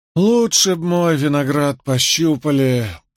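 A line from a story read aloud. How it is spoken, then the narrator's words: Drawling. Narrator (Russian): протянула мисс Леклер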